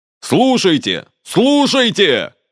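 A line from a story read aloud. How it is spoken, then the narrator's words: Shouting. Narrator (Russian): кричал он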